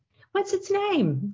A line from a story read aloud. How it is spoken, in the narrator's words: Julia asked brightly